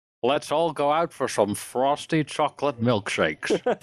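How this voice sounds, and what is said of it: Put-on American accent. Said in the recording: “Please say in an American accent ... That was Gerald Ford.”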